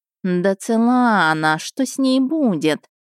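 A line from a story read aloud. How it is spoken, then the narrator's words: Lazy, stretching. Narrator (Russian): Лениво потягиваясь, сообщил Перцалькоатль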